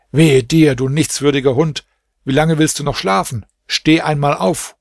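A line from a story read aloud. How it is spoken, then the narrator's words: Called out. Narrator (German): Er rief dann dem Sklaven und sagte zu ihm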